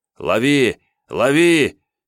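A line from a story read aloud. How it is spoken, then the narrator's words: Shout. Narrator (Russian): закричал Игорь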